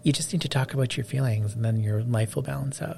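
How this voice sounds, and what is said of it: Pretentious know-it-all character voice. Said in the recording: “I don't know why I'm doing all these impersonations today. ... It's all the same pretentious know-it-all. ... It's an abstract character.”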